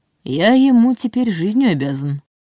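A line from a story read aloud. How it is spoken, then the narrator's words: Gentle reminder. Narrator (Russian): мягко напомнил Нев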